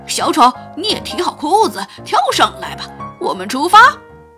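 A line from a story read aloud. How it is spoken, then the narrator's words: Leader shouting. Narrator (Chinese): 领队喊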